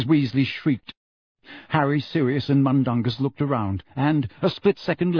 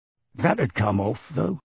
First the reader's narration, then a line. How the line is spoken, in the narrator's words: muttered Mundungus